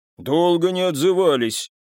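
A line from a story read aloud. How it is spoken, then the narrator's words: Deep bass voice. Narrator (Russian): пробасил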